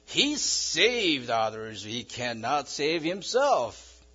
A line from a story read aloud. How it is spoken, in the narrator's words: The chief priests and elders of Jews were jeering at Jesus, saying